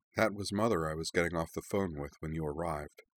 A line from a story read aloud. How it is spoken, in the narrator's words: said Azana softly